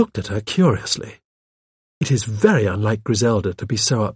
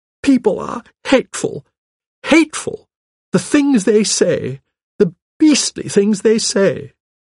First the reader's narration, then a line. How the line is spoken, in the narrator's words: cried indignantly